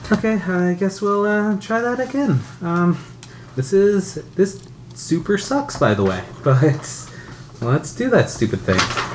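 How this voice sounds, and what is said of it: Put-on character voice. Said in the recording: “let me do the character voice.”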